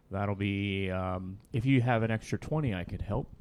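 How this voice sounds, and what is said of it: Mock accountant character voice. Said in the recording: “That's your impression of an accountant.”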